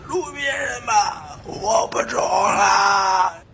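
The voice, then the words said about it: Hoarse, strained voice. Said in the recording (Chinese): “嗓子哑了，不中了。”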